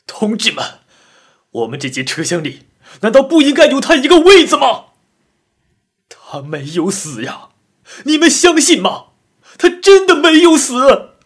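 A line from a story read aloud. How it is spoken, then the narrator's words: Excited shout. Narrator (Chinese): 激动地喊道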